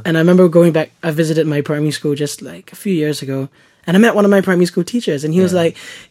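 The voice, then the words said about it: Husky voice. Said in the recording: “my voice is weird anyway. It's got this weird husky thing going on.”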